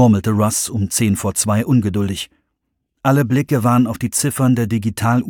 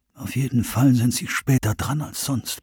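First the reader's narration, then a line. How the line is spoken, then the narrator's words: Quiet remark. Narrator (German): meinte Jones leise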